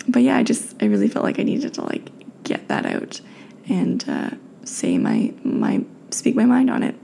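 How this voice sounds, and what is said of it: Slightly raspy, tired voice. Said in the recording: “my voice is a little raspy because, again, it's late and I'm tired”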